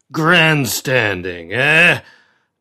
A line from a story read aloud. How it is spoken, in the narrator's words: jeered Cochrane